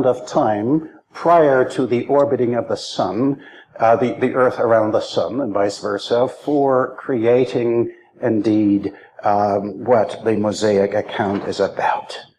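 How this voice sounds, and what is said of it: German accent in English. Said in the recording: “English is sort of an acquired kind of thing for me... what sort of accent is that... that sounds Sicilian, Italian maybe, right? No, not really. German is my first language”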